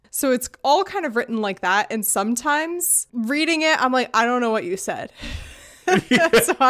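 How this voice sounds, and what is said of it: Usual voice. Nothing is said of it.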